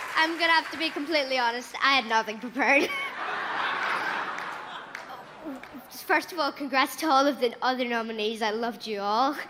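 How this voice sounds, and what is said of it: Child speaking with Irish accent. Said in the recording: “It's an accent, it's a child ... Irish ... Belfast”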